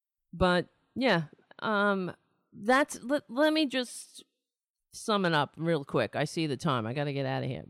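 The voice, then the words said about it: Losing his voice, strained. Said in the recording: “I'm losing my voice. It's probably because I haven't slept.”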